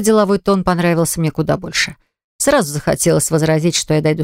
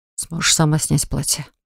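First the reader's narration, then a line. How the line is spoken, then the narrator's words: Whispered question. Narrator (Russian): шепотом спросил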